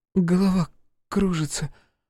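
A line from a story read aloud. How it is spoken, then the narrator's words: Strained, forced out. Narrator (Russian): выдавила из себя девушка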